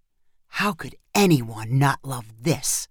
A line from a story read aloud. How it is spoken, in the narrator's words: Jeff whispered to his wife